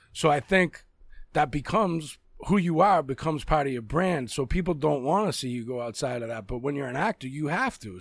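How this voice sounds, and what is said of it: Boston accent. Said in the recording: “My real accent is a Boston accent.”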